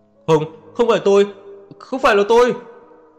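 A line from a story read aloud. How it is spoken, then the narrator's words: Agitated shouting. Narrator (Vietnamese): đứng bật dậy đầy kích động, gào lên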